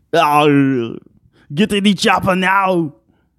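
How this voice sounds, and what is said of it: Weak Arnold Schwarzenegger impression. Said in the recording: “I can't do a good Arnold Schwarzenegger, but... I can't say it like him. When he says it, he says it in his German accent... Austrian accent”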